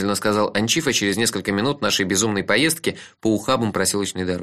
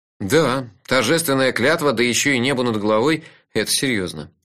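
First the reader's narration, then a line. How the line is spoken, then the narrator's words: Sigh. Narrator (Russian): вздохнул я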